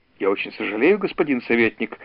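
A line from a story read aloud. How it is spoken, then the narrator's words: Mumbling. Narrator (Russian): забормотал Элизауэр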